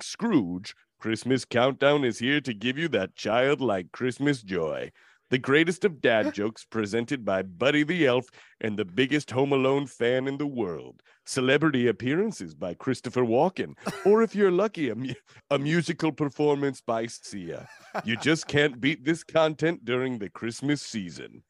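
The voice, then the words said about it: Epic movie trailer voice. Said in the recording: “my epic movie trailer voice”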